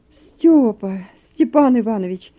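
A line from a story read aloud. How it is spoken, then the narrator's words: Exclaiming. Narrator (Russian): воскликнул Захар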